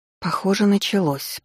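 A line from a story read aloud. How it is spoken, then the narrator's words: Mumble. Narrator (Russian): пробормотала я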